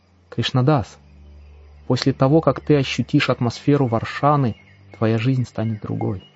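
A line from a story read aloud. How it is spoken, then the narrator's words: Quiet exclamation. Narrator (Russian): Он тихо воскликнул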